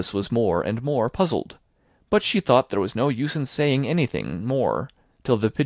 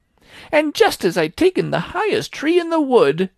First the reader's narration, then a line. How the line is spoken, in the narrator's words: continued the pigeon, raising its voice to a shriek